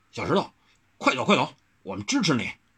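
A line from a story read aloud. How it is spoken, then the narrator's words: Deep low voice. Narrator (Chinese): 磨菜刀的大汉沉声道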